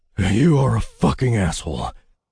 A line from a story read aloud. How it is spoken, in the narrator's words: I whispered up at the air